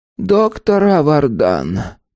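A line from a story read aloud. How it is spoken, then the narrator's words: Gloomy. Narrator (Russian): мрачно проговорил Шект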